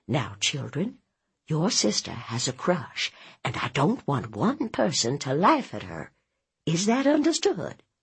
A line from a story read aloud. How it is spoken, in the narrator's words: Mama whispered